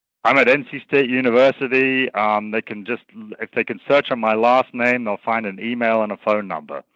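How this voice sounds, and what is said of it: Speaks with a noticeable accent. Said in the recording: “I love his accent.”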